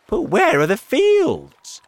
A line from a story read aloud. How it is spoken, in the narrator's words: they cried